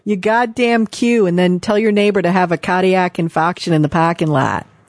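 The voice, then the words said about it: Put-on Boston accent. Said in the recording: “that was my very bad Boston accent ... That's really good.”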